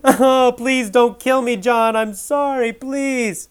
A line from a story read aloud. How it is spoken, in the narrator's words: Bob cried